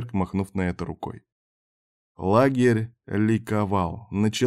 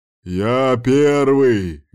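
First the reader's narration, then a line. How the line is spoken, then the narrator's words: Menacing yell. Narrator (Russian): грозно орал Кирк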